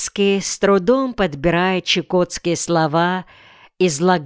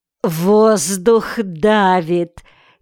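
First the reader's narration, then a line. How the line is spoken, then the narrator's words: Giggling old woman. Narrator (Russian): хихикала старуха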